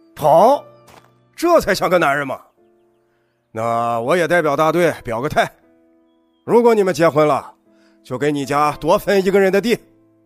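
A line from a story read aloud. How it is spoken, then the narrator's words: Loud village official. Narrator (Chinese): 村支书冯凯，他大声说道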